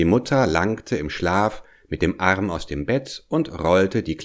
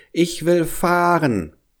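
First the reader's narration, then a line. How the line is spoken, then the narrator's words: Small child calling out. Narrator (German): rief der kleine Hävelmann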